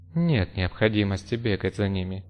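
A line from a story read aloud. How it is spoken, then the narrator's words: Muttering under breath. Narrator (Russian): пробормотала Исан и Сарт себе под нос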